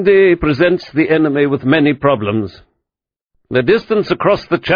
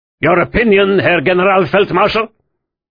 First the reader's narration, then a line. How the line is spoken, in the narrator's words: Hitler snapped